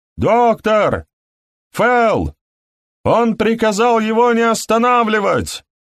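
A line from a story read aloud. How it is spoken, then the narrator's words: Shouting from outside. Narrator (Russian): прокричал голос снаружи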